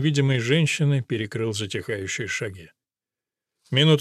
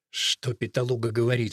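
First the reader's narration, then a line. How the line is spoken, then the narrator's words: Muttered through clenched teeth. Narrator (Russian): сквозь зубы процедил Араспиды, почти не двигая губами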